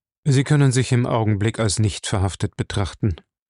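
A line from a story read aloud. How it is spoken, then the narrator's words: Plain. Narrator (German): sagte Jim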